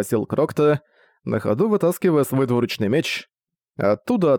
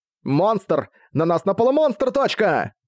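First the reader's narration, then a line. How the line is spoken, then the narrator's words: Yelling. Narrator (Russian): Завопил Тиё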